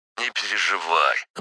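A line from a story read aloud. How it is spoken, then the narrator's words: Snort. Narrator (Russian): хмыкнул коптер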